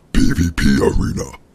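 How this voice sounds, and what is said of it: Guttural caveman voice. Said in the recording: “in a guttural caveman voice”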